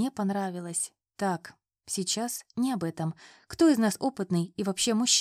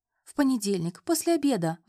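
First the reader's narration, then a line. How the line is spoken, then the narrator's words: Pleading. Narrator (Russian): взмолилась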